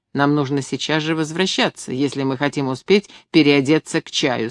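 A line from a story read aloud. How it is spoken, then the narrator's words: Plain. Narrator (Russian): сказала я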